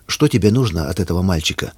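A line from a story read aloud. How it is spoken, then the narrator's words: Calm question. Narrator (Russian): спокойно спросил дядя Коля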